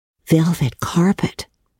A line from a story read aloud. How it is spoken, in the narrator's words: sighed Anne luxuriously